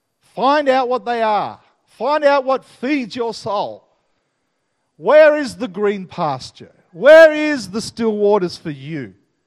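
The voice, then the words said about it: Australian accent. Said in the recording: “I want you to hear this Aussie accent ringing in your ears”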